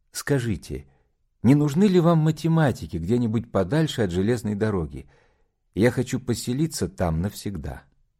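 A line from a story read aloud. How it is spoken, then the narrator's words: Timid request. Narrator (Russian): робко ... попросил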